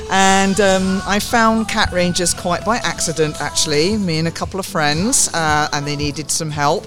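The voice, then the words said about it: Southern English accent. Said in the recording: “You might tell by my accent, I'm not a local, but I am from the south, but that's south of England.”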